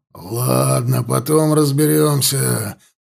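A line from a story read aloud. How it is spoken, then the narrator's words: Growled. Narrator (Russian): прорычал ворк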